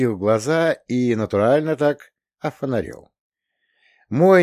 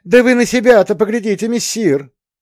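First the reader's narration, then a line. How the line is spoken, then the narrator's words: Cat exclaiming. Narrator (Russian): воскликнул кот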